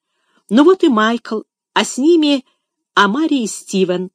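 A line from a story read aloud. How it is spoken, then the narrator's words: Joyful exclamation. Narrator (Russian): радостно воскликнул Финиас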